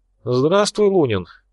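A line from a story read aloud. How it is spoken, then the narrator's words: Cheerful, smiling. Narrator (Russian): весело улыбнулся Шинджа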